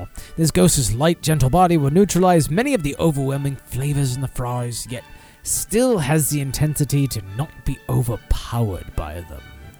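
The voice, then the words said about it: Poor British accent, sounds Australian. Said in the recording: “fuck my British accent. That was probably closer to Australian”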